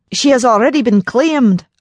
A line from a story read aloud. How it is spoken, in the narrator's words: Alex roared with fury